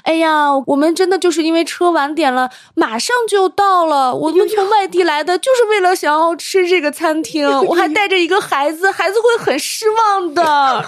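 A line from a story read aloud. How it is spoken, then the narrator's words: Sweet voice. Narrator (Chinese): 李培他声音也很甜嘛，他就说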